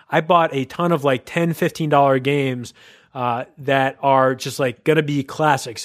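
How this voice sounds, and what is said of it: Excited voice. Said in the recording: “you can tell in my voice that I'm very excited about this”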